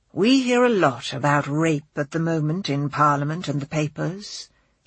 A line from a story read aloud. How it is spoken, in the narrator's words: he intones, his voice more patrician than ever